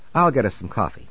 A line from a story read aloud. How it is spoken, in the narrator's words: she said